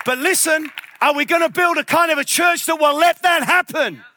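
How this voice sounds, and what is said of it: Shouting passionately. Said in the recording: “I'm shouting, sorry, because I'm passionate”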